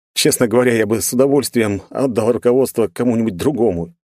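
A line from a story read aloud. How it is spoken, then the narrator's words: Heavy sigh. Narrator (Russian): тяжело вздохнул я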